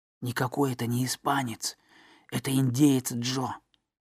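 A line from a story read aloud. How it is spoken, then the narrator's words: Whisper. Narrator (Russian): прошептал на ухо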